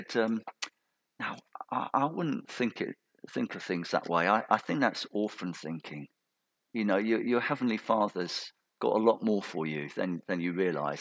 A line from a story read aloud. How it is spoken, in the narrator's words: they so gently said